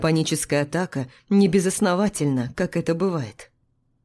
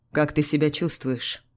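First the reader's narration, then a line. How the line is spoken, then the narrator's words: Calm question. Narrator (Russian): спокойно спрашивает он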